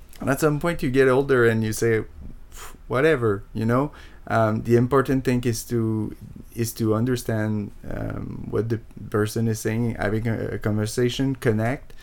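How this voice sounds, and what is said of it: French Canadian accent in English. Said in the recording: “the accent was a problem at the time and it hasn't really been solved yet ... I was shy of speaking English because of my accent”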